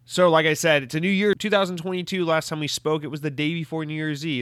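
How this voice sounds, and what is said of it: Slightly nasal voice. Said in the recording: “My allergies are absolutely killing me, which is possibly affecting my voice. ... if I sound a little nasally”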